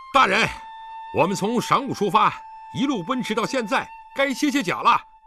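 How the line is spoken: Shouting while galloping. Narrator (Chinese): 李元芳一边跃马飞奔，一边向身边马上的狄仁杰叫道

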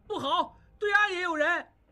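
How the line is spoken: Alarmed shout. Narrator (Chinese): 小栓叫道

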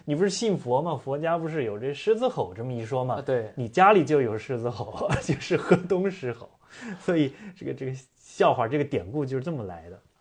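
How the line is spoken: Joking. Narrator (Chinese): 苏轼就跟他开玩笑说

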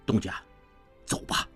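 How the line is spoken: Low, urgent. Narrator (Chinese): 潘维言低声急道

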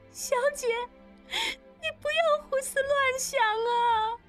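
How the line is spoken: Tearful whisper. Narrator (Chinese): 喜凤依依对她耳语，喜凤哭道

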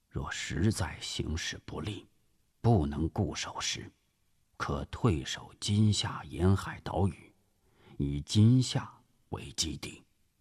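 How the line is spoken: Low voice. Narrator (Chinese): 朱绍良低声说

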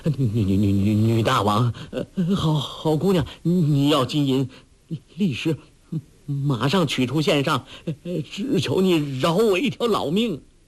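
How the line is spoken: Panicked, trembling. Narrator (Chinese): 那主人慌了手脚，…颤声说

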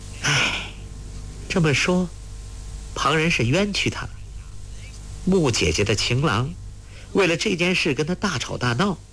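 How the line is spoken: Sighing. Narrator (Chinese): 黄蓉叹道

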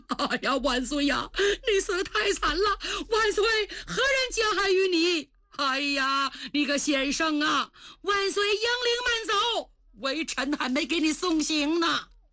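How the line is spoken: Wailing. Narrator (Chinese): 群臣 有的大哭

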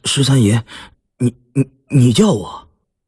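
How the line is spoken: Nervous stammering young farmhand. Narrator (Chinese): 十分忠厚朴讷的庄稼院小伙，十分不惯这种场合，热得头上冒汗，结结巴巴地说

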